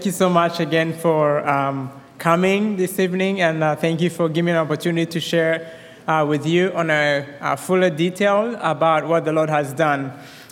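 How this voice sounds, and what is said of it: Rwandan accent with American touches. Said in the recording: “that's my Rwandan accent ... you would hear my Minnesotan accent also ... now I have a Southern accent”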